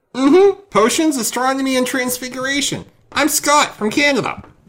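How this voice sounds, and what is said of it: Put-on Canadian character voice. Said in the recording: “Why am I doing this voice? ... I love your Scott ... I was expecting more references to maple syrup, and you saying, eh, a lot.”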